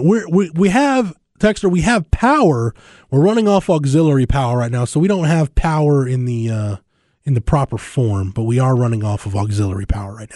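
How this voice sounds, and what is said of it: Raspy, slightly hoarse voice. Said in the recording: “my voice is a little raspy today, not feeling great, not in ideal health”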